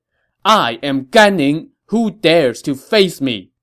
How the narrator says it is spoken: At the head of Dongwu's fleet, a general shouted

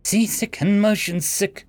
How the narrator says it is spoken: she whimpered

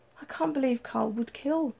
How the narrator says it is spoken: she sobbed

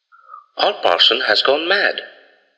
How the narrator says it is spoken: cried Goodman Gray

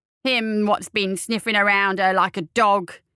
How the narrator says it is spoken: the old woman snarled

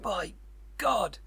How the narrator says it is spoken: He cried

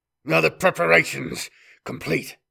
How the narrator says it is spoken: growled Khoisan, his voice still thick with the last few lingering traces of the cornate demon that had briefly surfaced from inside him

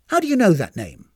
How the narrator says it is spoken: She snapped

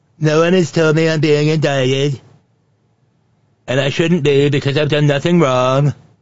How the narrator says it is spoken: Nitwit Nero whined

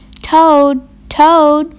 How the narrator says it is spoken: shouted Frog

